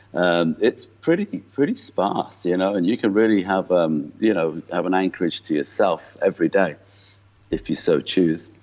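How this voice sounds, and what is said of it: English accent with Irish twang. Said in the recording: “a bit of a mongrel accent by now ... I was from just north of Liverpool ... that gives it an Irish twang ... he sounds English, but he sounds Irish with certain words”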